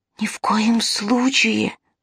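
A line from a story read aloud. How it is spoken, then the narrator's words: Whispered. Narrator (Russian): прошептал Тилар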